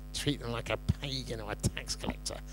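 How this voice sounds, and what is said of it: Exaggerated evil voice. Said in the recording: “That's my evil voice.”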